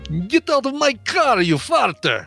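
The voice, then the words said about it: Put-on Eastern European accent. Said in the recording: “Bulgarian accent ... It's gonna be you know, the Eastern European.”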